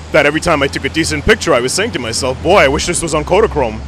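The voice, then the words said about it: Rich radio-style voice. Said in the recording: “has an awesome radio voice.”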